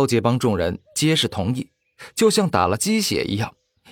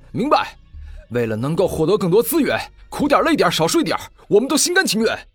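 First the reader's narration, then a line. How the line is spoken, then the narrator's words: Loud. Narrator (Chinese): 李狂傲大声说道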